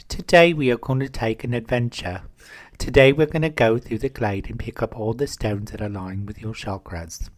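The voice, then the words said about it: Guided meditation narrator voice. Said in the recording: “I do a really good impersonation of a guided meditation”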